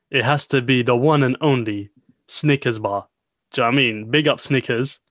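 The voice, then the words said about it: Put-on accent. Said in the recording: “I don't know why you're continuing with that accent”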